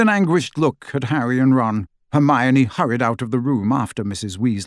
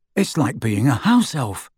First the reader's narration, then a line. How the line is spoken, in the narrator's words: complained Ron in an undertone